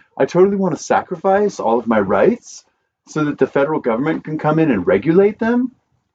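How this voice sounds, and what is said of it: Mocking put-on accent. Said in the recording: “That's the wrong accent. ... You just hurt my ears.”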